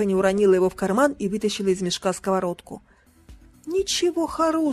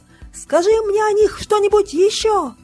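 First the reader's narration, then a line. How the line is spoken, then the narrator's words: Shouted. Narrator (Russian): крикнула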